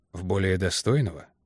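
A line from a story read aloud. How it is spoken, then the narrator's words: Drowsy mumble. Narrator (Russian): пробормотал Портер, как в полусне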